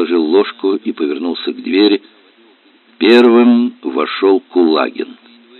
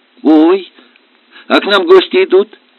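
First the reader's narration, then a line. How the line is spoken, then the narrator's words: Excited exclamation. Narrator (Russian): воскликнула Марейка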